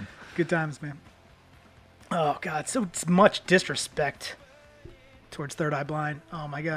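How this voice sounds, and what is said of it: Usual voice. Nothing is said of it.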